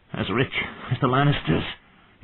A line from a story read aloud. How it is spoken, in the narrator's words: he wheezed